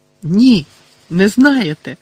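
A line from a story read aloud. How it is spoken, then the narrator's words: Sudden loud exclamation. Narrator (Ukrainian): раптом голосно вигукнув Гаррі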